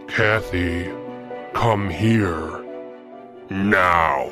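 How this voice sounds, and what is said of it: Extremely deep menacing voice. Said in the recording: “I heard an extremely deep voice come from my bedroom.”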